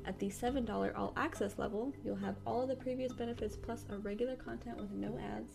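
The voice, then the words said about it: Hoarse, strained late-night voice. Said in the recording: “losing my voice because it is 2 a.m.”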